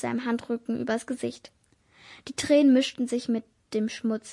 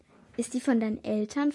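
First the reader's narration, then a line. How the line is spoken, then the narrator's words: Plain. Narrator (German): fragte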